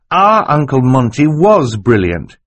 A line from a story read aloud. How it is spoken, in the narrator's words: said firmly